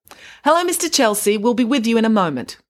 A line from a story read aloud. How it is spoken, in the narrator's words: She called out across the counter